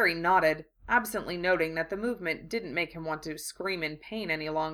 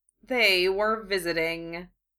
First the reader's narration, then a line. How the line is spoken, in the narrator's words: Severus answered dryly